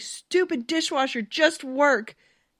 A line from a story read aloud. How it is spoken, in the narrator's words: she yelled at the appliance